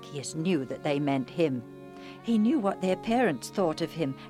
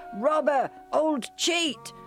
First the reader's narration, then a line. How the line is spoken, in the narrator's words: the children were in a gang and at a safe distance, they shouted